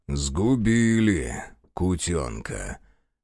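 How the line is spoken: Muffled booming through mask. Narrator (Russian): прогудел из-под маски Захар

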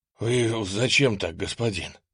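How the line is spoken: Breathless exhale. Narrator (Russian): выдохнул запыхавшийся десятник штабной роты

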